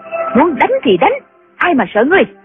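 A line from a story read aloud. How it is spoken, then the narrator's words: Angry. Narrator (Vietnamese): Nghi Hòa tức giận nói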